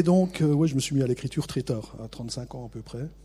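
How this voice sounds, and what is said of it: Regional French accent from the Vosges. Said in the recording (French): “D'où mon accent. J'ai pas été opéré, donc j'ai toujours mon accent.”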